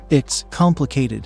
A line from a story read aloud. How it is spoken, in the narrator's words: I stammered